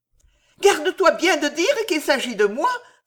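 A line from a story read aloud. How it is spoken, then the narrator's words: Exclaim. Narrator (French): s'écria Alice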